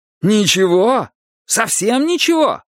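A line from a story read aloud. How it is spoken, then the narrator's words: Moaning. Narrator (Russian): простонал Винкат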